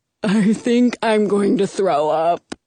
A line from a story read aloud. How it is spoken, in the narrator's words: Frederick moans